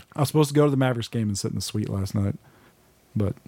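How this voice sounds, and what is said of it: Hoarse, deep voice. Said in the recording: “it sounds like I'm losing my voice right now ... Deep voice.”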